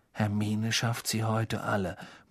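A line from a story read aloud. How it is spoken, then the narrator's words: Awed murmur. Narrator (German): murmelte Ron mit ehrfurchtsvoller Miene Harry zu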